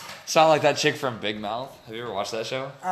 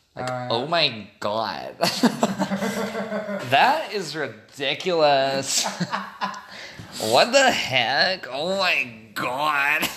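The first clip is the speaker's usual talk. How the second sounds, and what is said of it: Mock California valley girl accent. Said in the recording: “I made fun of Cali girls a lot. Like that accent. ... Did you say Valley Girl or Cali Girl?”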